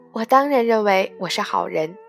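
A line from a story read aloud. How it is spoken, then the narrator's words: Smiling reply. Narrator (Chinese): 敏感的张爱玲她笑着回答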